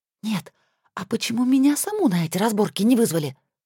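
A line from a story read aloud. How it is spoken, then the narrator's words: Indignant whisper. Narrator (Russian): возмущенно прошептала я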